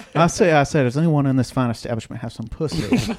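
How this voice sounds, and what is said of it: Put-on Southern gentleman accent. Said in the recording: “became a Southern gentleman very quickly ... His accent, too. He's a country gentleman now.”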